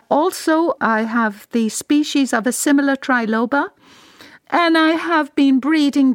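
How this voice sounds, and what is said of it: Irish accent. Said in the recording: “a Royal Irish accent”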